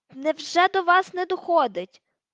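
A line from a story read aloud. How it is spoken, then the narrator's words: Shout. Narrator (Ukrainian): крикнув Гаррі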